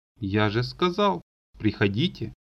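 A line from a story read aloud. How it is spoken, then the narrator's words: Sigh. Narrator (Russian): вздохнул Олег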